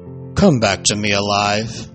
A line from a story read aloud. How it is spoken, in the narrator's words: said, his voice choking